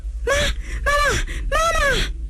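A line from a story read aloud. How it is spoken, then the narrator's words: Loud wailing sobs. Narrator (Chinese): 温青……放声大哭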